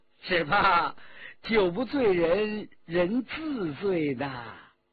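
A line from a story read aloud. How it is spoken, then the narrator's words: Laughing. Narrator (Chinese): 骆宾笑着说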